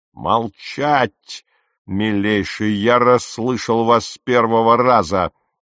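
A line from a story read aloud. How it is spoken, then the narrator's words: Roaring. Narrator (Russian): проревел капитан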